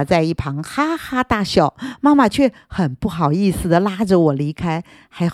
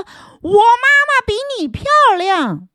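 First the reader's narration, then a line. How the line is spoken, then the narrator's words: Loud, angry. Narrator (Chinese): 我很生气，大声说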